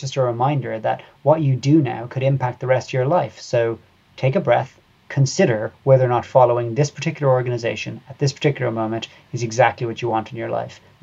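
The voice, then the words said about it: Irish accent. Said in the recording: “I can tell from your accent that you are Irish”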